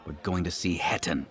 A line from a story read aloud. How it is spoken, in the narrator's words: Syndra snarled